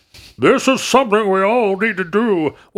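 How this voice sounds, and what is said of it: Poor Nixon impression, Southern-sounding accent. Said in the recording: “I don't know why my Nixon is so bad ... why am I in a Southern accent?”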